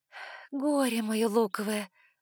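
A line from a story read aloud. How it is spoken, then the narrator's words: Sighing. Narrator (Russian): вздохнула я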